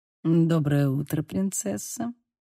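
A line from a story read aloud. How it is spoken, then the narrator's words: Purred. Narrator (Russian): промурлыкал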